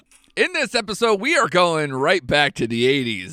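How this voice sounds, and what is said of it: Cartoonish radio DJ voice. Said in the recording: “some odd radio DJ voice thing ... some cartoonish thing to do”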